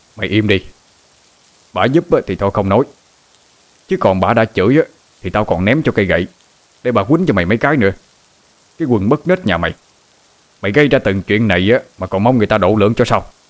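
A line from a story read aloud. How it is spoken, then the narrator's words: Angry shout. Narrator (Vietnamese): Ông bắt quát lên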